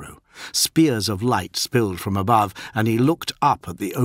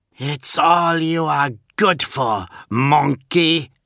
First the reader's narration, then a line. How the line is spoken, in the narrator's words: snapped Viruchi Vora